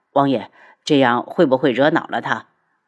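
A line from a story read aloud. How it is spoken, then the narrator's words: Calm, indifferent. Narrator (Chinese): 轩辕志神色淡淡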